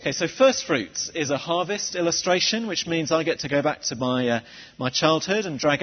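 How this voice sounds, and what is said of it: Usual voice. Nothing is said of it.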